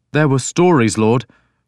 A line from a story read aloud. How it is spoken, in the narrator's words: Willibald said nervously